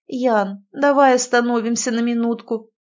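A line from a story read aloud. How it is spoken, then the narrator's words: Pleading. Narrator (Russian): взмолилась она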